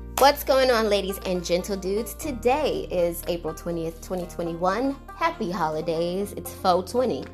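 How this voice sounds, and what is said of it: Scratchy, hoarse voice. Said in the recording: “As you can hear, my voice is a little scratchy because I am getting over bronchitis”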